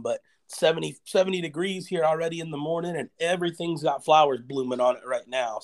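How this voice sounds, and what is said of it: Slightly hoarse voice. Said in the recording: “Allergies kind of kicking my butt this week ... my voice is a little hoarse today and maybe coughing from time to time”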